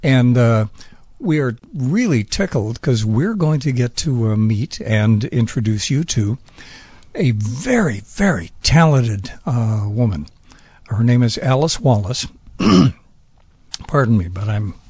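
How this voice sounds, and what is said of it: Hoarse, lost voice. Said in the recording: “That's from yelling as you were driving. You lost your voice.”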